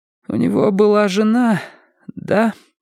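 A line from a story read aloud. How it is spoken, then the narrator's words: Trembling-voiced question, woman. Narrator (Russian): спросила она дрогнувшим голосом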